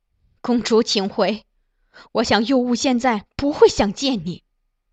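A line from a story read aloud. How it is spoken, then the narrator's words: Cold. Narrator (Chinese): 张美人却又在一旁冷冷开口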